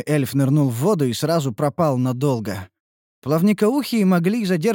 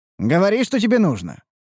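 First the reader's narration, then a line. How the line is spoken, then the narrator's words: Smirking grunt. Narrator (Russian): хмыкнул я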